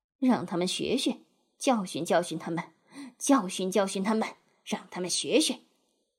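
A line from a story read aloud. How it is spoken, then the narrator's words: Confused muttering. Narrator (Chinese): 他自己也搞糊涂了，可以听到他在那里咕哝着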